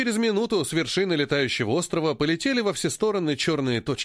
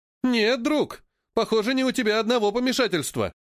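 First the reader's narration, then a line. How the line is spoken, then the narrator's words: Exclaimed. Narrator (Russian): воскликнул его товарищ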